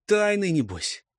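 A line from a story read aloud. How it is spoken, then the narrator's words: Sighing. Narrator (Russian): Азнабиша вздохнул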